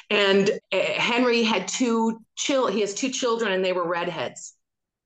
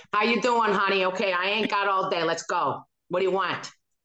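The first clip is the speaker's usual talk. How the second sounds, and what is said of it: Put-on Chicago accent. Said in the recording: “So there I was with the Chicago accent.”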